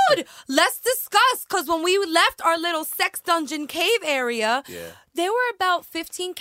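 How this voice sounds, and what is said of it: Usual voice. Nothing is said of it.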